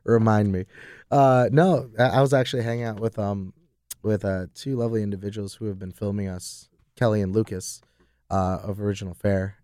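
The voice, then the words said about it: Hoarse, worn-out voice. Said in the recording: “lost my voice, because I had to do some karaoke.”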